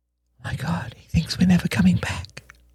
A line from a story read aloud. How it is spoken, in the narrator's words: whispered Helen uselessly